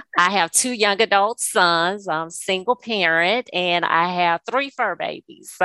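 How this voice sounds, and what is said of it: South Louisiana twang. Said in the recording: “I am a native of South Louisiana, so you probably hear a twang in my voice.”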